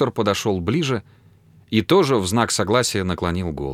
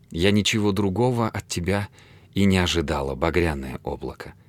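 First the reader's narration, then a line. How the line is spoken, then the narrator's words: Grateful whisper. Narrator (Russian): прошептала она благодарно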